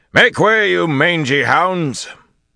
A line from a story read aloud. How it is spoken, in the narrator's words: Gallien roared